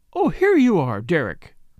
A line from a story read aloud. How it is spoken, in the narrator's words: cried Lady Tamplin